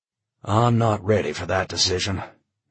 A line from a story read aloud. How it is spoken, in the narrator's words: Charlie sighed